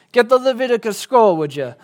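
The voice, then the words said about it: Put-on Israeli accent. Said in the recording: “That's my Israeli accent.”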